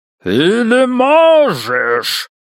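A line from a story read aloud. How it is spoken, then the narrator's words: Booming, artificially altered voice. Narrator (Russian): прогремел эхом искусственно измененный голос Уолли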